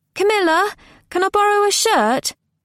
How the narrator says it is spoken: She called out

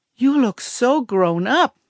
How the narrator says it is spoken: Mommy said, her voice sad but happy

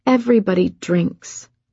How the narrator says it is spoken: said calmly

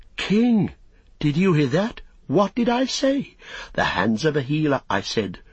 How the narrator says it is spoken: Eorath exclaim

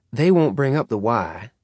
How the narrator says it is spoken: Virgil said coldly

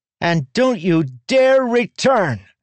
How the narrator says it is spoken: she shouted up

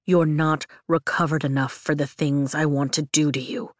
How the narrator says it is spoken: he growls

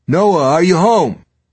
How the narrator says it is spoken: shouted up into the dim stairwell

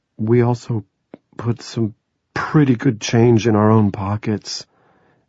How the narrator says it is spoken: Andy said timidly

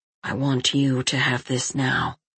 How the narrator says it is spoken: he said in a low voice

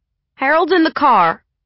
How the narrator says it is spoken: she said, raising her voice

